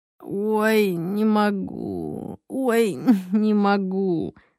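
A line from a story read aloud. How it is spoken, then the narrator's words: Moaning. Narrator (Russian): стонал Максим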